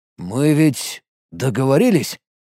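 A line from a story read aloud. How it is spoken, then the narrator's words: Muttering. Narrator (Russian): пробормотал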